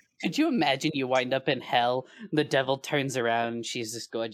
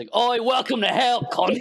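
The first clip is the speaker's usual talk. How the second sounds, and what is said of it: Put-on Australian accent. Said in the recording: “Is the devil Australian? ... the accent”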